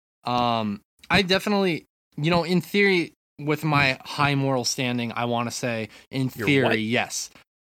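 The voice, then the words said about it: Sarcastic, joking delivery. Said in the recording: “This is a joke. I'm being sarcastic.”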